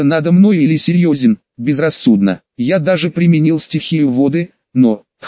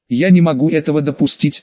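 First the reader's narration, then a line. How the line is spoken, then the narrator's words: Suddenly harder, more commanding. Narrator (Russian): резко изменился Хаширама, став жестче и внушительнее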